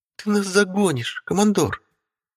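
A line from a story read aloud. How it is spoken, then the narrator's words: Groaning. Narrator (Russian): простонала Алинка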